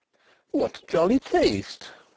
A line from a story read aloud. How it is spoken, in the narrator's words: she exclaimed